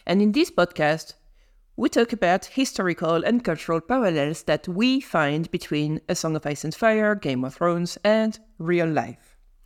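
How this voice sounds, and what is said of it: Non-native English accent. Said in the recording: “we're both from non-English-speaking countries ... we have a very beautiful accent”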